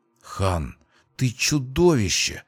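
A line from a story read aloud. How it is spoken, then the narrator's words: Confused mutter. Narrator (Russian): растерянно пробормотала Дайра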